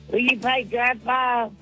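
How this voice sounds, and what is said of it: Yelling, loud voice. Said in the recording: “I love that you're yelling.”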